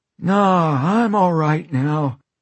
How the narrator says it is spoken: he says, grinning and wheezing

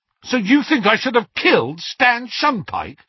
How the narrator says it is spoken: said Harry angrily

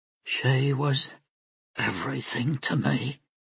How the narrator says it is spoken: Lynn Merce whispered

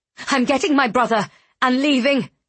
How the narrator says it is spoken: she spat

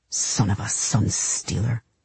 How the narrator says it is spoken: he hissed

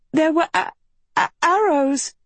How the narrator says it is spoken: Agatha stuttered

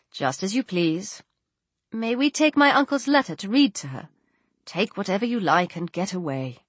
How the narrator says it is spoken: without raising his head, coolly replied

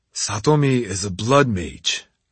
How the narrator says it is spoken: I reminded them grimly

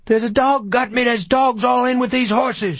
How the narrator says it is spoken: she cried

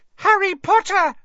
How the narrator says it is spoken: she squealed

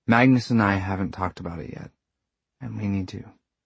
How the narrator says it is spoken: he said quietly

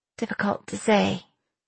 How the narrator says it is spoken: I said weakly

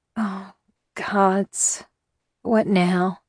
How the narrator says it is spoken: I gasped

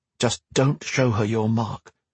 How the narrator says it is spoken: Gwen muttered, after grudgingly assenting to the plan

